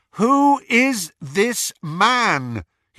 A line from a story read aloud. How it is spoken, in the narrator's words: repeated loudly